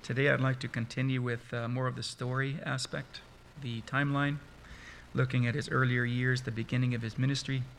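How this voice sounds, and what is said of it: Croaky, hoarse voice. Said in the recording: “I've been actually sick for a number of weeks ... My voice is now croaky”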